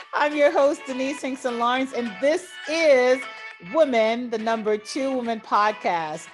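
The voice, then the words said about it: Slightly crispy, hoarse voice. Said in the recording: “Excuse my voice a little bit crispy today”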